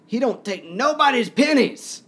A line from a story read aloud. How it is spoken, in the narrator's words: the woman shout